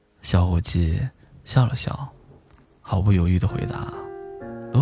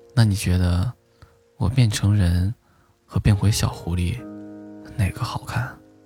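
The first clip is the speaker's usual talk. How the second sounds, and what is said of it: Tiny, very soft voice. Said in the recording (Chinese): “他用蚊子一般的声音说”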